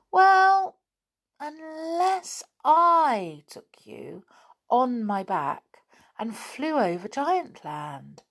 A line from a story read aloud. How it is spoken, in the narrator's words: said the cuckoo slowly